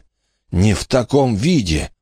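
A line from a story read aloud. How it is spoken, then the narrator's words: Moaning in pain. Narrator (Russian): простонал он, баюкая свою изуродованную руку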